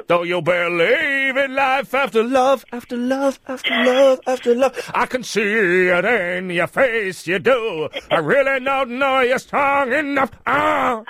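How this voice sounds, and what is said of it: Sung imitation of a pop singer. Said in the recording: “It's a good impression, isn't it? ... Really bad impression. ... You do a better Cher impression.”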